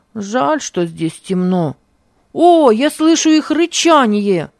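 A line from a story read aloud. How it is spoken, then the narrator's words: Shout. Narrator (Russian): закричал он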